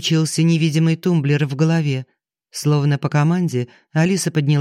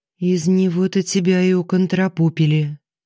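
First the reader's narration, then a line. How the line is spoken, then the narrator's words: Sad irony. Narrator (Russian): печально сиронизировала она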